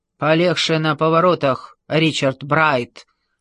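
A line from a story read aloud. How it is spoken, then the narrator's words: Grumbling traffic controller. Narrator (Russian): проворчала регулировщица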